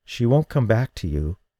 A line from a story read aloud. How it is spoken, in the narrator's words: she said softly